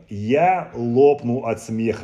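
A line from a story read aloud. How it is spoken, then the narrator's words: Loud laughing beaver. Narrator (Russian): громко хохотал бобер Большой Зуб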